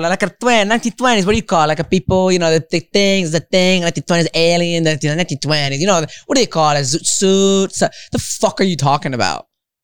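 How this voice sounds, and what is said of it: Imitates another person's voice, with accent. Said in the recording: “I gave you an accent”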